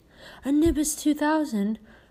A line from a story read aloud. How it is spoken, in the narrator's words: Ron moaned enviously